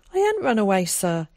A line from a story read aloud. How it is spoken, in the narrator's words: he blurted out